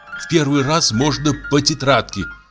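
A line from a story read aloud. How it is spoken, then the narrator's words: Plain. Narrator (Russian): сказал кто-то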